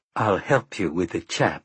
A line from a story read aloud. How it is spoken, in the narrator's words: Susanna replied grimly